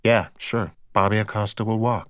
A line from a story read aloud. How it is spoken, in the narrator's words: she said softly